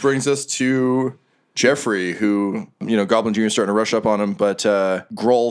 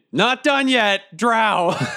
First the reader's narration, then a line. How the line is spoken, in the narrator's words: I yell over to the Union